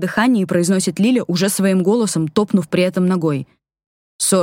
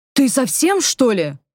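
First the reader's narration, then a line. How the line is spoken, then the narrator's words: Indignant exclamation. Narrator (Russian): возмущенно восклицаю я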